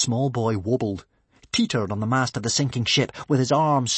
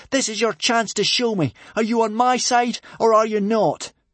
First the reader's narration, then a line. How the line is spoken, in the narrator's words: shouted Hiccup